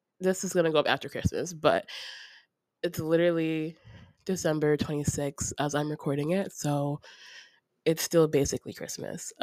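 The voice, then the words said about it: Sick-sounding voice. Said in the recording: “As you can hear in my voice, I'm still not feeling well”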